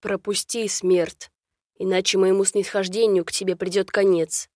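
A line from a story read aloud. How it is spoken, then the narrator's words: Menacing raven voice. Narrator (Russian): грозно вымолвил ворон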